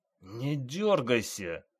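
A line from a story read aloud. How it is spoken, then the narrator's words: Hissed through clenched teeth. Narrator (Russian): Прошипел сквозь сжатые зубы ревизор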